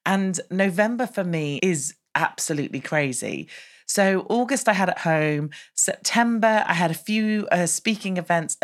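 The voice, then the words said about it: Slightly off, unwell-sounding voice. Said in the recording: “my voice is a little bit funny because I think I'm coming down with something”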